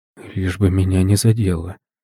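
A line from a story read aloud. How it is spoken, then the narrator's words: Man's worried whisper. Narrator (Russian): шептал мужчина, понимая, что ситуация ухудшается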